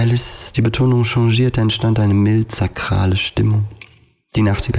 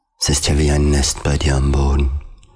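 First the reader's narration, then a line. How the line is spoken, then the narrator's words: Contented sigh. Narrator (German): seufzte zufrieden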